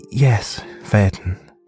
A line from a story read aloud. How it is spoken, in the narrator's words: said his mother softly, though the words felt as powerful and searing as the fire on a cold, dark night